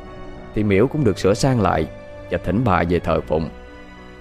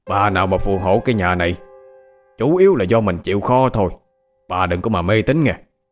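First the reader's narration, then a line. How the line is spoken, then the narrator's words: Loud. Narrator (Vietnamese): Ông chồng lớn tiếng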